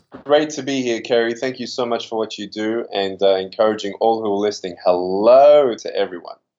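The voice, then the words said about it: Mild Australian accent. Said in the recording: “I gotta love an Australian accent. I really do... This one's a little watered down after 12 years of being here in California, but definitely closer to Australian than American.”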